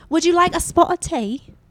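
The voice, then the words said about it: Attempted British accent, sounds Australian. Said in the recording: “I try to do a British accent ... That is not British. That is definitely Australian. ... That was a little better.”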